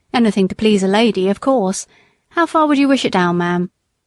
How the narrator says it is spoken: said Jakes, with a short laugh

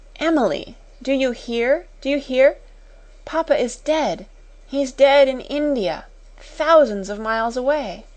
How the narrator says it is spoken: cried out wildly

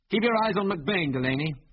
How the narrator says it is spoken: called Biggles loudly

